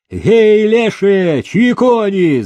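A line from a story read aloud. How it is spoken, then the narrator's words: Sudden shout from outside. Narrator (Russian): закричали вдруг со двора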